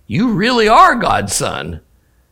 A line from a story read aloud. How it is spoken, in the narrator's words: And the men in the boat fell down before him and exclaimed